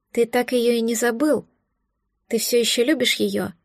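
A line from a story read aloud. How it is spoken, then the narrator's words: Sad sigh. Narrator (Russian): Грустно вздохнула я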